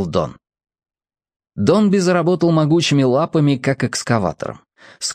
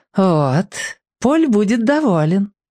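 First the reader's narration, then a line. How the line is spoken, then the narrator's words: Velvety voice. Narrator (Russian): бархатным голосом сообщил Бамбола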